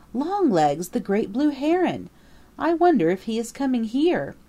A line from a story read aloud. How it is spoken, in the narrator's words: exclaimed Peter